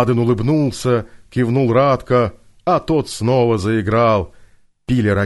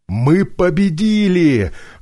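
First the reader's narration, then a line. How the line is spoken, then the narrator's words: Joyful. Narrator (Russian): радостно сообщил приятель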